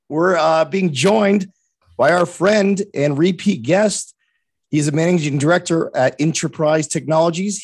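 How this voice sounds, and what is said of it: Slightly hoarse voice. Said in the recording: “Let me clear my voice a little bit. A little hoarse this morning.”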